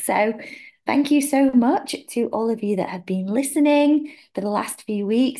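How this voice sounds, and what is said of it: Hoarse voice from a cough. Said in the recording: “As you can tell in my voice, I have still got quite a nasty cough”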